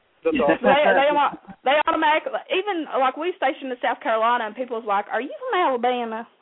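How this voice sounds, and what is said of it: Southern American accent. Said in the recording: “I just can't get over the accent ... Southerners”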